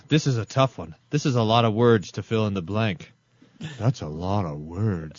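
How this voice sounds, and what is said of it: Imitates another person's voice. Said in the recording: “That's me impersonating Jerry Seinfeld impersonating a horse.”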